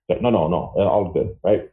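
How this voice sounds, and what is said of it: Imitates another person's voice. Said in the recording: “That's a good impression of him, really.”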